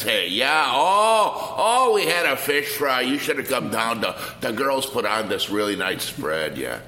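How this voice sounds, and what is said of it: Exaggerated Wisconsin accent. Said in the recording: “I know you grew up in Milwaukee, Wisconsin ... you kind of flash the accent”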